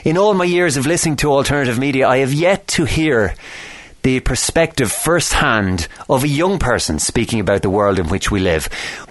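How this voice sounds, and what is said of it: Irish accent. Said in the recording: “As many of you can tell by the accent ... We're both Irish men”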